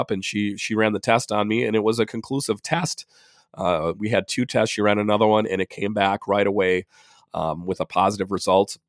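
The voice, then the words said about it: Congested, slightly winded voice. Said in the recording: “I was a little winded and, you know, a congestion. You can tell my voice is all messed up ... I am dealing with quite a bit of congestion. You can hear it in my voice, and I am a bit more winded”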